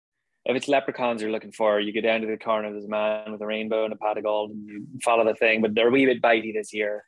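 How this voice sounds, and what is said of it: Put-on Irish accent. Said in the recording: “I spent 4 weeks with an Irish accent doing Aidan Jones from Castle Heart ... I said every line out loud”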